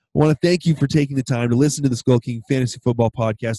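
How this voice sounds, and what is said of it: Hoarse, nearly lost voice. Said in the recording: “my voice has almost completely disappeared”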